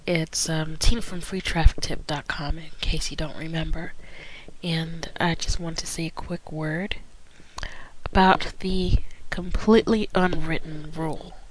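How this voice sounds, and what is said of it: Congested voice with a cold. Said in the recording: “I've got a little bit of a cold.”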